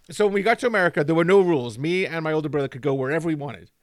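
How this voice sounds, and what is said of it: Placeless mixed accent with odd twang. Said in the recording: “you still have a weird kind of whang in your voice ... is ... not from America? ... he sounds weird ... you have a nowhere accent”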